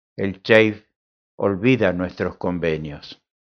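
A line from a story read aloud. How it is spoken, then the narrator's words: Plain. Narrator (Spanish): dijo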